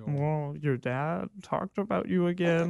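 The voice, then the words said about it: Imitates another person's voice. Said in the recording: “that's exactly how he sounds. That's a great Colin impression. I can vouch for that Colin impression.”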